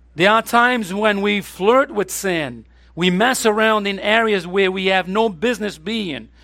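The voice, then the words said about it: Speaks with an accent. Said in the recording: “I always confuse this name because of my accent here”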